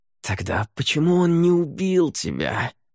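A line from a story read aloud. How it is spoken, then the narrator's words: Warrior's hiss. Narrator (Russian): прошипел воин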